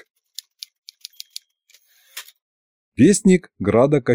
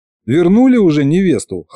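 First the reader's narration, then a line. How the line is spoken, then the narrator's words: Amused snort. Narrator (Russian): хмыкнул я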